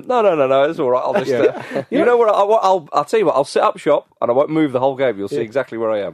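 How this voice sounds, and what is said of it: Peter Crouch impression. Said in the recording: “how good that Peter Crouch impression was ... it was good, wasn't it? ... Very good.”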